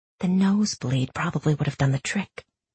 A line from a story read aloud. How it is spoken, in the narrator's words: whispered Inej